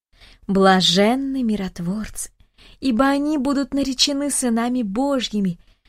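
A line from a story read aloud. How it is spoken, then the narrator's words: Grandmothers in unison. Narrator (Russian): Дружно поддержали бабушки слова дедушки Даниила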